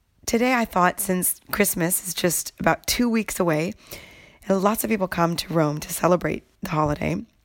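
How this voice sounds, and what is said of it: Voice strained from a cold. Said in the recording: “I apologize in advance for my voice. I have my annual winter cold right now, and my voice is not faring too well”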